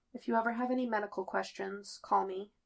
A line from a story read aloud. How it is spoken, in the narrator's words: Claire says quietly